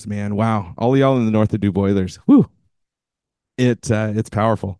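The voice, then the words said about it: Texan accent. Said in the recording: “I got to bust out my Texan ... get that accent back in my mouth”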